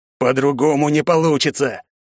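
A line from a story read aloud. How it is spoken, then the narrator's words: Growled. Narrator (Russian): прорычал отец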